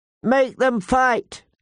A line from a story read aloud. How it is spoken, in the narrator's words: Lord Robert called out